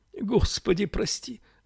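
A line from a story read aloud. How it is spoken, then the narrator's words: Holding back sobs. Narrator (Russian): сказала она, едва сдерживая рыдания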